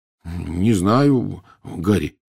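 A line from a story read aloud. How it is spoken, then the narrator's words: Uncertain reply. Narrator (Russian): неуверенно ответил Рон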